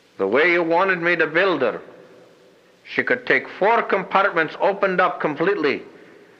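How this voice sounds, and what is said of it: Pronounced Scottish-Irish accent. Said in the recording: “my own voice on tape articulating in a pronounced Scottish-Irish accent”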